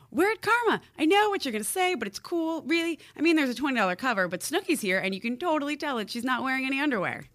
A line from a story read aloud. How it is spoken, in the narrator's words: She yelled into the phone